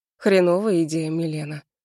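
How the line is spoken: Hoarse. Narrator (Russian): хрипло проговаривает он

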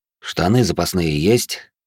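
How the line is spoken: Tired question. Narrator (Russian): устало спросил я

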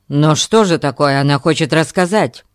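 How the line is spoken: Horrified exclamation. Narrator (Russian): с ужасом воскликнул Альберт

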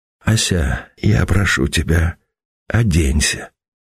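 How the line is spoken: Muffled voice. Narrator (Russian): глухим голосом проговорил Сергей

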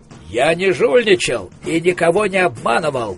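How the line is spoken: Growled. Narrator (Russian): прорычал Коэн

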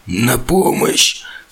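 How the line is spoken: Strained hoarse rasp. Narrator (Russian): с трудом прохрипел я

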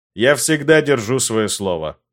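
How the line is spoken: Cold. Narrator (Russian): холодно произнес я

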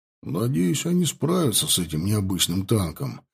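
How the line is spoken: Sigh. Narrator (Russian): вздохнул Борис

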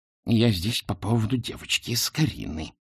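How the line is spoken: Hissed. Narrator (Russian): прошипела она

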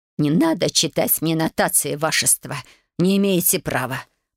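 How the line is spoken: Furious old woman through teeth. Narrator (Russian): процедила бабуля, яростно сверкнув глазами

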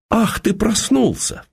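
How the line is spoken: Frightened exclamation. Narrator (Russian): воскликнула она, даже испуганно как-то

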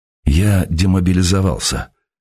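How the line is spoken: Hoarse. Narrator (Russian): хрипло добавил он

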